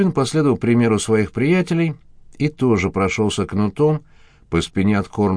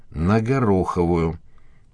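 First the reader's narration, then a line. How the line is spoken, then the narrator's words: Gruff mutter. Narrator (Russian): буркнул мужчина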